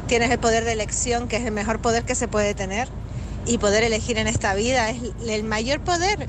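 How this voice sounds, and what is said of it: Canarian Spanish accent. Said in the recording (Spanish): “Canaria. Ay, cómo me gusta, cada día me gusta más este acento”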